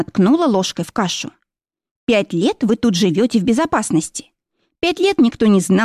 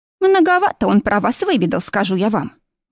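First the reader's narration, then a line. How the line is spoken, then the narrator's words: Grumbled. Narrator (Russian): буркнула Бет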